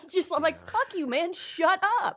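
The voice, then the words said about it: Yelling. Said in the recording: “why do they keep yelling?”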